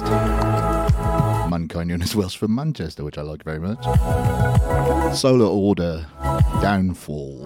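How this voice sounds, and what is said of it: Radio DJ voice. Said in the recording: “that was a really DJ voice, wasn't it?”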